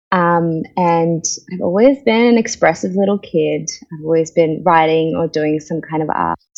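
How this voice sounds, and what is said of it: Indian Australian accent. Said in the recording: “you might be able to hear from my accent. I am an Australian, I'm an Indian Australian.”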